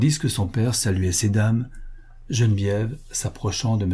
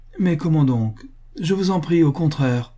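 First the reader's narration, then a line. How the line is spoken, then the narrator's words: Delighted exclamation. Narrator (French): s'écria Madame Moret, ravie de voir disparaître Ledru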